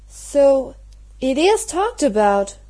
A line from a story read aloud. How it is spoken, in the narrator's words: exclaimed Mary